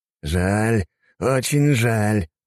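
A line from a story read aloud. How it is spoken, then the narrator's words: Through gritted teeth. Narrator (Russian): проскрипел зубами Николай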